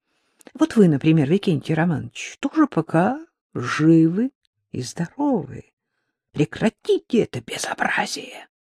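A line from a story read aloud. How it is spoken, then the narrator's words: Very quiet. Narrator (Russian): сказал нотариус совсем тихо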